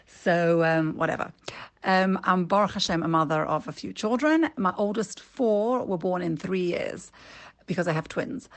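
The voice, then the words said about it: British accent with South African tinge. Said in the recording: “my British accent ... what they think is a South African accent”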